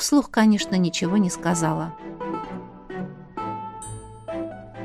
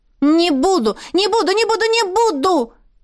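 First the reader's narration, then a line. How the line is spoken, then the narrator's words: Shouting. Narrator (Russian): кричала она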